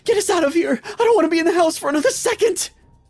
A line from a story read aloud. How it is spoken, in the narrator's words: I said in a crying voice